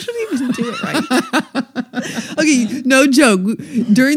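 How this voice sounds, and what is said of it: Usual voice. Nothing is said of it.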